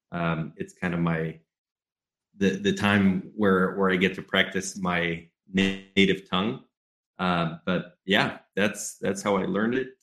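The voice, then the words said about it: American English accent. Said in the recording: “beautiful English accent ... It's an American English accent.”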